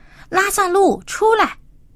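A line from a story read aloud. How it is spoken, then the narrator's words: Loud calling. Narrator (Chinese): 大声呼叫说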